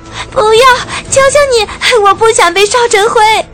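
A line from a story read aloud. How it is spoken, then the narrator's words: Crying and screaming. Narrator (Chinese): 匹诺曹连哭带喊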